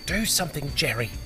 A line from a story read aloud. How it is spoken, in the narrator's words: his wife hissed